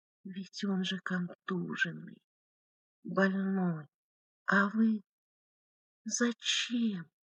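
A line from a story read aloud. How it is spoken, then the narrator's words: Delirious whisper. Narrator (Russian): Как в бреду шептала Гликерия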